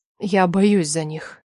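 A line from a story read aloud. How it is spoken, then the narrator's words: Quiet confession, mother-in-law. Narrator (Russian): тихо призналась свекровь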